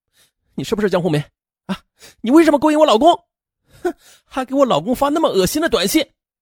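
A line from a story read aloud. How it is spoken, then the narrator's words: Spirited, confrontational. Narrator (Chinese): 江红梅反而来劲了，说呀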